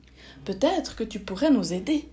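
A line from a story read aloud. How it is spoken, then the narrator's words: Plain. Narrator (French): demanda alors Bichon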